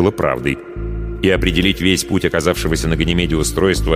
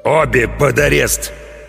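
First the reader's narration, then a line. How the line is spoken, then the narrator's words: Growl. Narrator (Russian): прорычал капитан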